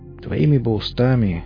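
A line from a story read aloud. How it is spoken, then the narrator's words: Sighing. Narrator (Russian): вздохнул я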